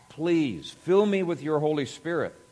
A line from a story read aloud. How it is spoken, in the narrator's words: she cried out to God